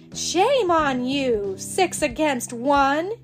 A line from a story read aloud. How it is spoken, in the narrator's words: yelled Pippi